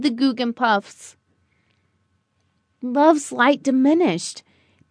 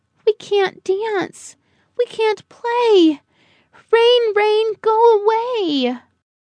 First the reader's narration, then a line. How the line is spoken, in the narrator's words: Joy cried